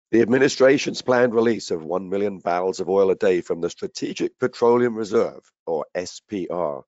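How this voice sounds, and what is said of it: Hoarse voice. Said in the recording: “my hoarse voice from a head cold”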